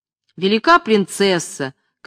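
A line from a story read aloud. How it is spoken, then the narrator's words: Shouted. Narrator (Russian): крикнула Лена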